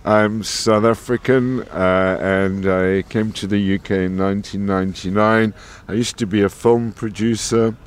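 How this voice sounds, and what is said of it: South African accent. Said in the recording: “judging by your accent, you're not from Scotland.”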